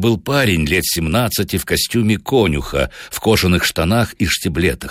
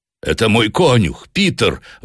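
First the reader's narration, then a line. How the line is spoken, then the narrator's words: Exclamation. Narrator (Russian): воскликнул незнакомец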